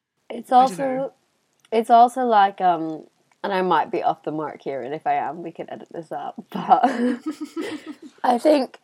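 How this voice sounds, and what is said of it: Strained, fading voice. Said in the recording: “Oh, I'm also losing my voice.”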